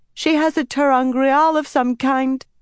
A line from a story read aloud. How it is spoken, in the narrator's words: Tamila cried